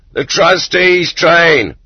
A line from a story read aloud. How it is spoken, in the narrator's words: In the clay pit, they shouted